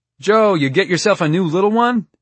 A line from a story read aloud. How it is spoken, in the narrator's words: a voice called out